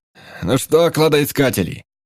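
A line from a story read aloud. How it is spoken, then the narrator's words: Shout. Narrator (Russian): крикнул он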